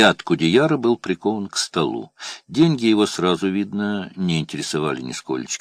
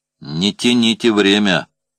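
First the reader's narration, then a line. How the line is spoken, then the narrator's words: Unkind tone. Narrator (Russian): недобрым тоном произнес Сабинин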